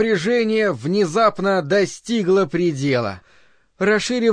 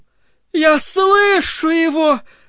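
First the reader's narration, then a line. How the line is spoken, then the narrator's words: Shout. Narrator (Russian): закричала она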